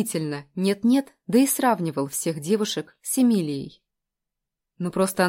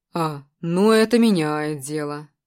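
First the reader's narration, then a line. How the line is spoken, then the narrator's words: Snide drawl. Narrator (Russian): ехидно протянул Костя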